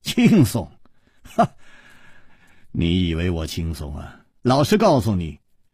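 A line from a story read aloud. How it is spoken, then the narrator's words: Wry smile. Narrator (Chinese): 苦笑着说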